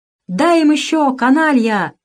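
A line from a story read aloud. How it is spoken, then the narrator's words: Shout. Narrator (Russian): крикнул Кузьма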